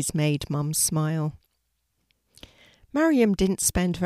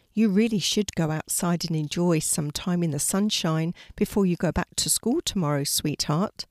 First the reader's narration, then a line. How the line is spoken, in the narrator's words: Mum said